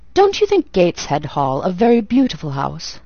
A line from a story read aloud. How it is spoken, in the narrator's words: he asked